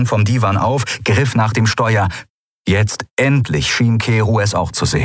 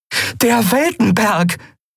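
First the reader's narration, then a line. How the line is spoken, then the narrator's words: Called out. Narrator (German): rief Endriel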